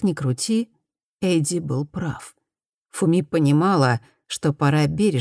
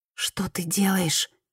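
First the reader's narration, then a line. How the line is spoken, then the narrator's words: Whispered question. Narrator (Russian): шепотом спросила Фуми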